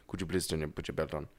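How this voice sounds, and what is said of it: Put-on accent imitating a driver. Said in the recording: “Didn't need to do an accent for my Uber driver.”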